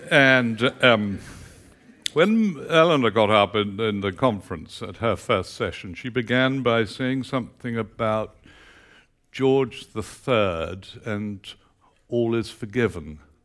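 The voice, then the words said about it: Texas accent. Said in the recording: “my strange accent ... I come from Texas”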